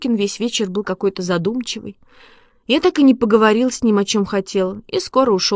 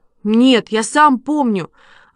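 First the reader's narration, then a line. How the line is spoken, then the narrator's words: Offended. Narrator (Russian): обиженно сказал Костя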